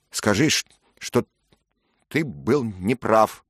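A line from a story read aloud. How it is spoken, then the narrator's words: Stammering speech. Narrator (Russian): запинаясь, проговорил он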